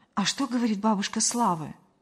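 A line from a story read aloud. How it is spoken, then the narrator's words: Frightened, muffled young woman. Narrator (Russian): Девушка испуганно приглушенным голосом ответила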